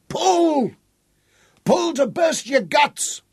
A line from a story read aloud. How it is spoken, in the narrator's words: Tom shouted at his crew